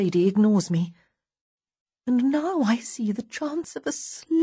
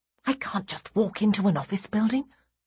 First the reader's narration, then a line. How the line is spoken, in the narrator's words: I hiss back